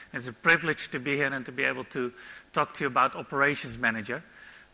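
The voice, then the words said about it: Dutch accent in English. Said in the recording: “by the accent you probably already heard, I'm not from New Zealand, I'm no Kiwi ... I'm also not an Aussie ... I'm from Europe. I'm from Holland, the Netherlands, Amsterdam.”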